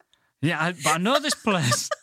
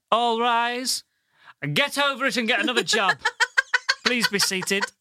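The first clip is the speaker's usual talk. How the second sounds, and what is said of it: Mock stern judge voice. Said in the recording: “That was an excellent impression of a judge.”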